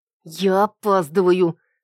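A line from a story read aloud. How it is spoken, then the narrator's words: Through gritted teeth. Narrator (Russian): скрипнув зубами, процедила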